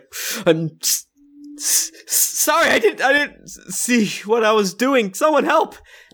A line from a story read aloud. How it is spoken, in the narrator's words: starts sobbing and is like